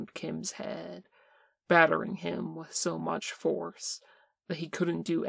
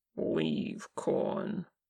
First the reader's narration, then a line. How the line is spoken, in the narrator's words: Kim grumbled